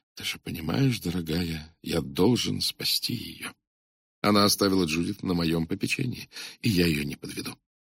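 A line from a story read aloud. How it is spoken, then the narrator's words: Barely audible whisper. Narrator (Russian): я чуть слышно прошептал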